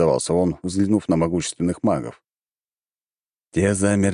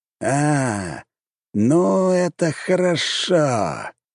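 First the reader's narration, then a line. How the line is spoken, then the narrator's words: Drawling older man. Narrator (Russian): протянул старший маг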